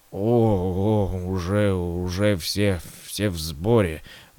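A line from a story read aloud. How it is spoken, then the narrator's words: Mumbled. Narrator (Russian): промямлил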